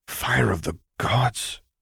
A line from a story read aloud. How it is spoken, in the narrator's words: he heard Kaliro mutter behind him